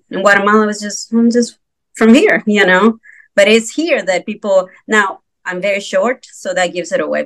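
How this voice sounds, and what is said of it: Non-native English accent. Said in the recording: “my accent won't go away ... You have an accent ... my accent won't go away”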